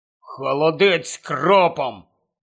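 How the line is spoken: Gloomy mutter. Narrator (Ukrainian): похмуро буркнув він

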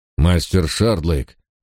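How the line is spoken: Irritated old man. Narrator (Russian): раздраженно сказал старый лорд

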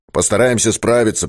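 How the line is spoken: Deep booming bearded man. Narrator (Russian): прогудел бородач

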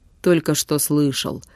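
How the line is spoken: Gruff mutter. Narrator (Russian): буркнул Витюня

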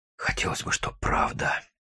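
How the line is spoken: Breathed out. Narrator (Russian): выдохнул Гриша

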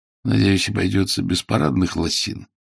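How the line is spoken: Groaning. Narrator (Russian): Ваймс простонал

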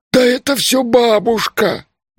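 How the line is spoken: Moaning. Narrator (Russian): простонал Маркула

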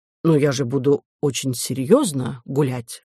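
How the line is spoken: Plain. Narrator (Russian): ответил Милодар

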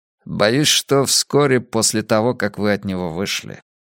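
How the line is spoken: Gloomy. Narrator (Russian): мрачно ответил Блант

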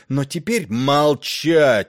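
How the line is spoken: Roaring. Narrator (Russian): взревел король

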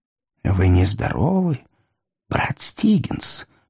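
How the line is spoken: Whisper. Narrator (Russian): прошептал мистер Энтони Хам

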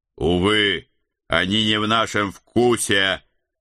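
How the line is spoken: Loud, gruff soldierly voice. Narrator (Russian): Громко оповестил я, добавляя в свой голос максимум грубой солдафонской брутальности

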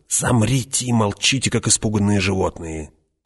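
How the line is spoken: Hiss. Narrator (Russian): прошипел Фриман

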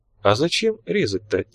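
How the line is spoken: Very quiet question. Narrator (Russian): тихо-тихо спросил генерал

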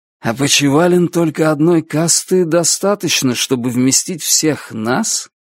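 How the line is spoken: Mutter. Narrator (Russian): пробормотал Звон

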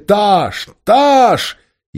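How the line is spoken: Soldiers yelling. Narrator (Russian): Тархистанские солдаты завопили

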